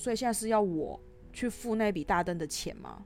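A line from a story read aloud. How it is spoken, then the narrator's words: Slightly annoyed. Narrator (Chinese): 我就有点恼怒，就说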